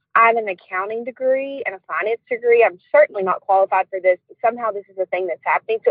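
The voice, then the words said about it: Strong Alabama accent. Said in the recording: “I'm not even going to try and match your accent because it's too fucking good ... from Alabama”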